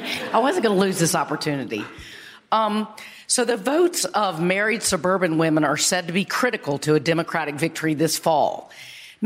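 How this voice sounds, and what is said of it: Hoarse, strained voice. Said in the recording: “a little bit of laryngitis”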